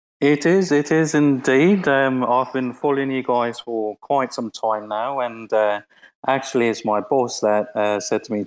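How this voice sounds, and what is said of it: British accent. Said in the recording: “Is that a British accent I can hear?”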